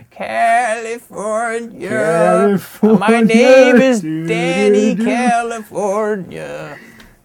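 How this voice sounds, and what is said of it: Terrible impression of a band's singing. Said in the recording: “do a terrible impression of the Red Hot Chili Peppers”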